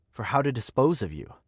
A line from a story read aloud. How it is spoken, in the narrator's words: she said